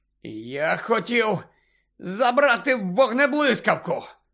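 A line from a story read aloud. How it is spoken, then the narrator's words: Hoarse rasp. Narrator (Ukrainian): прохрипів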